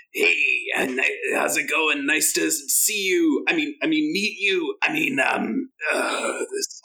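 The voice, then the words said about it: Put-on Trandoshan alien accent. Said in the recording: “I totally lapsed back into Trandoshan accent too”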